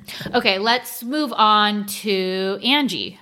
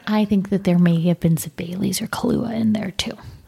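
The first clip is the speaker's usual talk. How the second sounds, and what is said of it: Whispering. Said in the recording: “I'm whispering because I don't want anyone to hear us”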